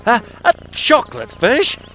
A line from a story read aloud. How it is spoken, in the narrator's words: spluttered Harry, who got such a surprise